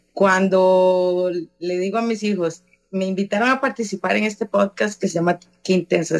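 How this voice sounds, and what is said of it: Hoarse voice. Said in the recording (Spanish): “todavía estoy afónica ... Como tengo que hablar tanto, me pongo afónica”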